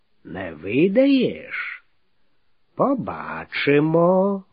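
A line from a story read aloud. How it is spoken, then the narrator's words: Calm meaningful nasal drawl. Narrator (Russian): многозначительным спокойным тоном прогнусавил Грыць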